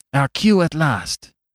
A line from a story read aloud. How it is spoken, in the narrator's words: cried Valentin